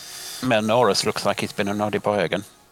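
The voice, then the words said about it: Camp put-on German accent. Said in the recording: “Why has Walther now got this accent? ... He always had a German accent. ... I don't remember it being quite as camp”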